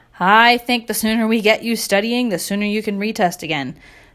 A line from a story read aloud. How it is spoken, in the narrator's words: said Mr